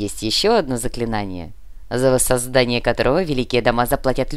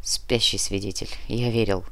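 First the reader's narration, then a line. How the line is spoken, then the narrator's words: Whisper. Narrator (Russian): прошептал Нар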